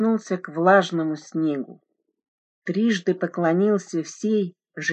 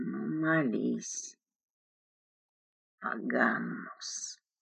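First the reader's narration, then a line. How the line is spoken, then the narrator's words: Hissing while spitting. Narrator (Russian): прошипел он, отплевываясь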